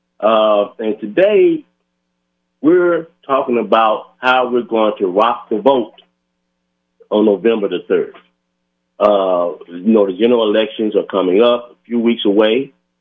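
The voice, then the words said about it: Hoarse voice. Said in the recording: “I am a little hoarse today. Ragweed season is in effect ... I am a little hoarse.”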